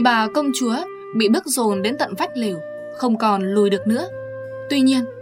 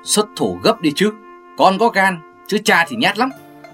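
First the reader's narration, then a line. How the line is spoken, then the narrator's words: Raised urging voice. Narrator (Vietnamese): Quỳ Tư Vương cao giọng dục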